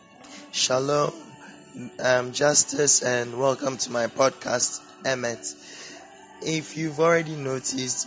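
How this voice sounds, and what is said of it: Sore-throated, strained voice. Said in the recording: “my voice is a bit funny today ... I currently have sore throat”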